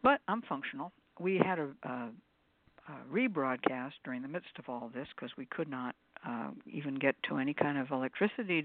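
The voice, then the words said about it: Voice sounds ill. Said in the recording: “I was so sick ... I'm not really mended yet, as you can tell by my voice”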